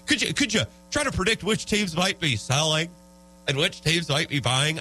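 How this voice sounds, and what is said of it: Imitates another person's voice. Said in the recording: “my default NBA podcast voice just turned into Will Ferrell doing Harry Carey.”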